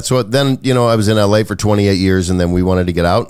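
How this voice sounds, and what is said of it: Slight Southern US accent. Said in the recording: “having a little bit of a Southern accent”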